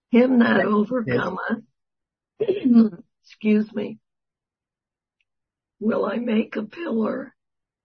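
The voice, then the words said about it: Strained voice, giving out. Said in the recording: “I guess my voice is going to give out on me.”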